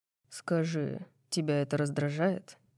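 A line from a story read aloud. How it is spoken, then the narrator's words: Quiet breathy ear-whisper. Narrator (Russian): Тихо спрашивает он, выдыхая вопрос мне в ухо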